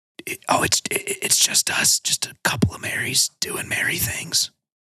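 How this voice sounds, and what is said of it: Whispering. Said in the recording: “you're going to have to speak up. I don't know why you're whispering.”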